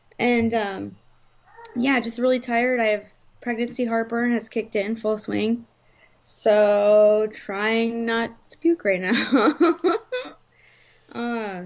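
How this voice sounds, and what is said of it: Hoarse, partly lost voice. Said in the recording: “my voice is still a little bit gone. I'm still a bit hoarse”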